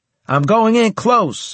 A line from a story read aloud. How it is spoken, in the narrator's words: I shouted